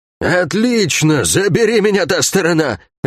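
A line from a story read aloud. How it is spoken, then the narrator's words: Drunken exclamation. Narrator (Russian): воскликнула Лагорец с пропитым лицом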